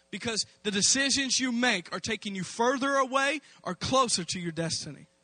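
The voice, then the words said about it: Loud, forceful raised voice. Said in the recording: “I'm talking kind of strong ... raising my voice.”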